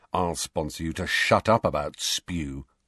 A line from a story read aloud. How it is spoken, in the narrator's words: Ron muttered irritably, but only so Harry could hear him